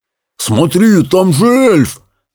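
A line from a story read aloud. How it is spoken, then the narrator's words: Exclaiming with mouth full. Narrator (Russian): воскликнул Питер с набитым ртом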